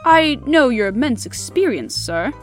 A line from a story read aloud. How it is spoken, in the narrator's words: said he